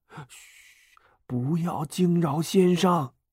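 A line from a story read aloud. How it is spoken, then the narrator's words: Quiet voice. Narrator (Chinese): 刘备小声说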